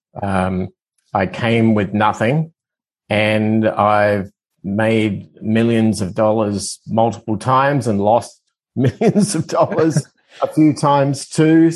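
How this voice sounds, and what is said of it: Australian accent. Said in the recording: “I'm originally from Australia, as my accent tends to give it away”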